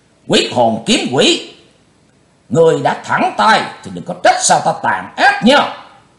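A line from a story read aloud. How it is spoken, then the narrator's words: Loud shout. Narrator (Vietnamese): Lão cục tài quát lớn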